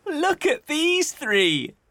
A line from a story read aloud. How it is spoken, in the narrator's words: he said, laughing